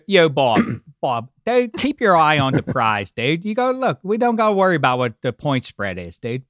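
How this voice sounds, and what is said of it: Put-on Pittsburgh Yinzer accent. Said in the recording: “I think your Pittsburgh accent is one of my favorite. ... I just did my three voices. I did my sporty, I did my Boomer Berman, and I did my my Yinzer guy.”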